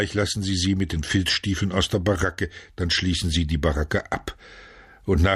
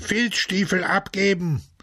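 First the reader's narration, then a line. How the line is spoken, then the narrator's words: Shouting in unison. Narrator (German): schrien sie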